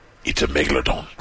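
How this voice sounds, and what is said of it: Imitates another person's voice. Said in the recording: “my impersonation of Jason Statham ... It was a little rusty.”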